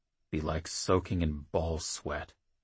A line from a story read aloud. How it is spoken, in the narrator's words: Jackal muttered, half to himself